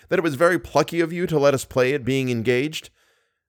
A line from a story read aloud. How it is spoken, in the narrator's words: said Raoul bitterly